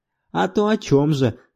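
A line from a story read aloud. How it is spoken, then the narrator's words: Laughing reply. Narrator (Russian): засмеявшись, ответил я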